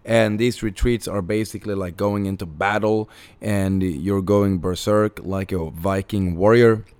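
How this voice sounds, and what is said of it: Hoarse voice. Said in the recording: “If you're wondering why I am hoarse as fuck, it's because we just finished a retreat.”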